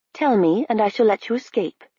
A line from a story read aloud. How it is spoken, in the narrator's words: she said